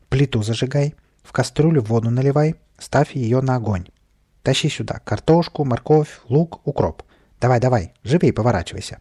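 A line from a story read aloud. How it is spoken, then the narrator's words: Cheerful shouting. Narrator (Russian): Весело покрикивал Каприска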